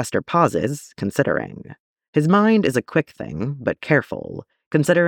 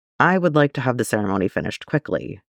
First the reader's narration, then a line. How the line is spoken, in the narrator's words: he says